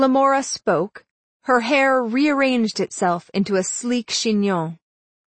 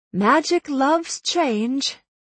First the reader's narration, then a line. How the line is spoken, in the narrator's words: said with a sigh